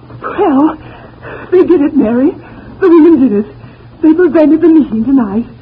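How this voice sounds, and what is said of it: Breathless, out-of-breath speech. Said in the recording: “I'm all out of breath. I hurried to get up here ... you must have been running ... just a minute till I catch my breath”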